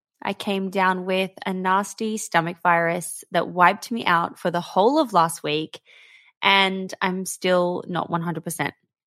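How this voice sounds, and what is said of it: Scratchy, slightly hoarse voice. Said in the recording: “my voice is a little bit scratchy today... my voice is letting me down”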